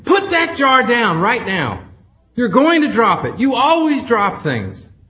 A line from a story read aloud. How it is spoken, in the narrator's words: she immediately screamed at him